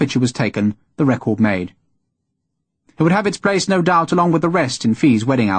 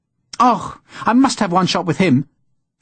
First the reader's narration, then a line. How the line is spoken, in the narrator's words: Fee exclaimed